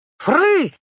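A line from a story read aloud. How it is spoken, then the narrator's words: Child's squeal. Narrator (Russian): взвизгнуло солнышко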